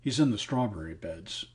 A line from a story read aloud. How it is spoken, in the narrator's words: said James in a low voice